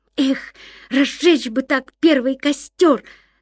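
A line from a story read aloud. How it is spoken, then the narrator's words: Ardent exclamation. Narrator (Russian): с жаром воскликнул Ян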